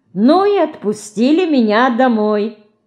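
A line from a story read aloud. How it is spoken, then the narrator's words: Cheerful. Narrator (Russian): весело заканчивает Марина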